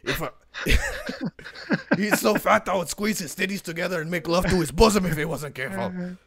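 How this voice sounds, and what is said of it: Nelson Mandela impression. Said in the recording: “my impression of Nelson Mandela comes from Chappelle's show ... my Nelson Mandela impression”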